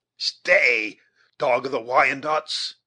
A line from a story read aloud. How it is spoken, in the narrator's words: exclaimed Uncas